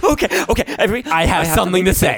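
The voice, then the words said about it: Manic, hysterical Frances McDormand impression. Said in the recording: “Anybody can do an impression of it? ... She was like hysterical. ... She was manic.”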